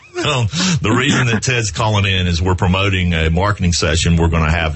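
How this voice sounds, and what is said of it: Southern US accent. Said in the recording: “This Southerner ... from South Carolina ... people can tell that I'm from the South ... My accent kind of gives it away ... You've got the good accent”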